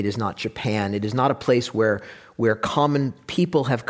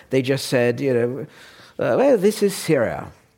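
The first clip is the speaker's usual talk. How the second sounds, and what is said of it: Put-on accent. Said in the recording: “Sorry, wrong accent.”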